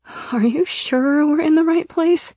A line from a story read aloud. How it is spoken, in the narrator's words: I asked nervously